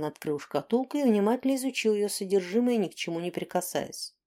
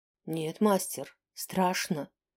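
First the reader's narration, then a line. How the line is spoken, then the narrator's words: Quiet. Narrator (Russian): тихо ответил Шидли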